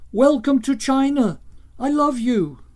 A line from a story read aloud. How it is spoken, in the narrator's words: Children shouted